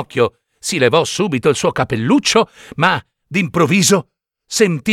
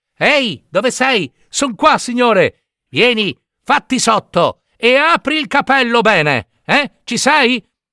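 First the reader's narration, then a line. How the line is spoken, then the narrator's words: Old man shouting. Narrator (Italian): la voce del solito vecchino gridò a Pinocchio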